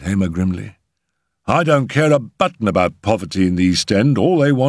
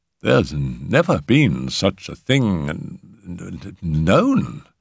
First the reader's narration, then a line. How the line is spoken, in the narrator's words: stammered Borrow